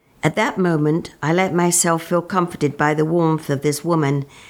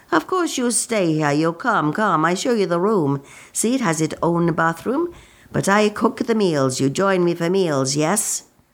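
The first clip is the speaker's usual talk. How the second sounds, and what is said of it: Pronounced Italian accent. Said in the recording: “she said in her pronounced Italian accent.”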